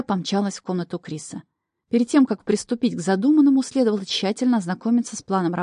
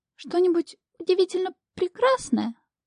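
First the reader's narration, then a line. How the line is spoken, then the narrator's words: Timid. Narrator (Russian): робко подал голос Тасилий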